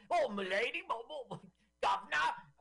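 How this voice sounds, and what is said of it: Exaggerated old-fashioned Cockney accent. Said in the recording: “I mean, it's so cockney.”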